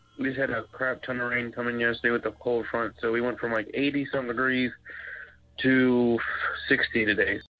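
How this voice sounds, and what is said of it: Congested, stuffy-sounding voice. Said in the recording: “Excuse my voice. ... My sinuses are all jacked up.”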